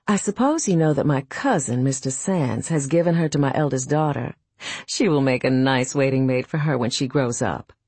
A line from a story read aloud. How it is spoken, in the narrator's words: Hobbs looked me coolly in the face and said